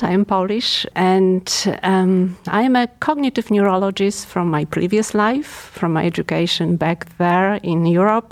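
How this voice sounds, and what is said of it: European (Polish) accent. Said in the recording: “So I'm European. Obviously, you can't tell probably by my accent.”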